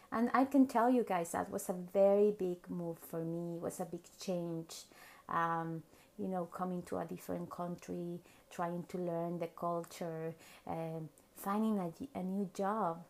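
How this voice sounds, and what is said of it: Mexican accent in English. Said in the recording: “Many of you know I'm from Mexico. Of course, you can tell by my accent”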